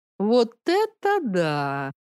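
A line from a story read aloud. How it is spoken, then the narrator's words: Drawn-out voice. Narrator (Russian): протянула она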